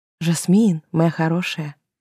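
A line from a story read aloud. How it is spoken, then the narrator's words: Whispered. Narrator (Russian): прошептала я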